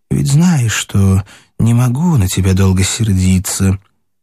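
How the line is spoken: Theatrical society voice. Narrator (Russian): другим голосом из какой-то воображаемой светской пьесы обратилась

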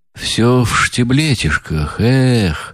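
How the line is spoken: Sigh. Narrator (Russian): Вздохнул он

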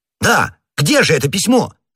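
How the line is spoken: Shouting. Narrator (Russian): закричал Д'Артаньян

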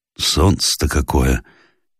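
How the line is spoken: Old man's soft exclamation. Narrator (Russian): негромко воскликнул старик

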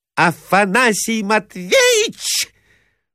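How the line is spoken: Shrill unnatural shriek. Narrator (Russian): взвизгнула Марья Александровна каким-то неестественным голосом

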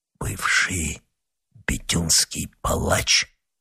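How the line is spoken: Disgusted whisper, young monk. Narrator (Russian): прошептал молодой монах, на лице его отразилось отвращение

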